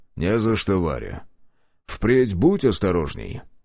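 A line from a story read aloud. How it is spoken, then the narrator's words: Calm steady reply. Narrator (Russian): прежним спокойным тоном ответил Художников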